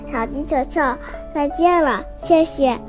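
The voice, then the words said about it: Weak, faint character voice. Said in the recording (Chinese): “向日葵用微弱的声音说”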